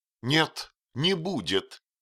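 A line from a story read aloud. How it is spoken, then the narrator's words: Sharp, firm objection. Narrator (Russian): резко и решительно возразила Мэзи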